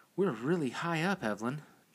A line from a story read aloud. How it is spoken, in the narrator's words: Jade whispered shakily